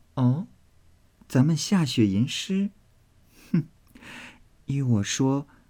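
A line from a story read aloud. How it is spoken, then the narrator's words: Quick laughing voice. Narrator (Chinese): 林黛玉忙笑道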